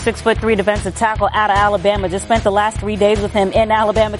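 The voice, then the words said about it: Slight Southern American accent. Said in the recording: “heard a little southern accent out of there”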